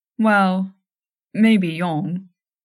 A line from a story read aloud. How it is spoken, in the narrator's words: Gon said